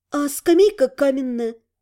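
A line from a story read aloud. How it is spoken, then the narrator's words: Sighing. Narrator (Russian): вздохнула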